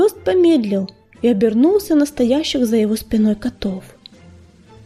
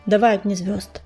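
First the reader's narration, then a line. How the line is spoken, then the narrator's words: Quiet. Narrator (Russian): негромко сказала пятнистая звезда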